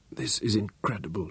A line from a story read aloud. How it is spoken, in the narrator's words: she whispered